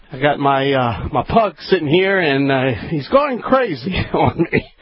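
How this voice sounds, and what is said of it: Slightly out of breath. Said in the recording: “I'm a little bit out of breath here.”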